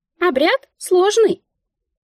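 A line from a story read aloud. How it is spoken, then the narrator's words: Squeaky, matter-of-fact. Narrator (Russian): пискнула Мика, якобы констатируя факт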